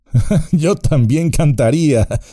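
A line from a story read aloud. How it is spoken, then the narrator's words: Laughing. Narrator (Spanish): rió Frodo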